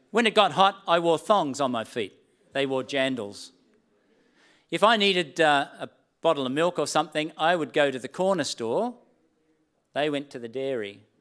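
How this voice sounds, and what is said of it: Australian accent. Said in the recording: “my Australian accent ... the distinctiveness of my accent amongst the prominent accent of the terribly British New Zealanders”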